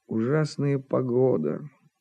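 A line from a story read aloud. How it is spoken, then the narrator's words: Muttering. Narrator (Russian): пробормотал Жирков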